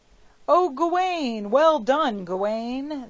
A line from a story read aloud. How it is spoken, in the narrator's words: they all cried